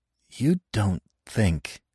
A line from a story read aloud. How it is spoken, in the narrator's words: I stammered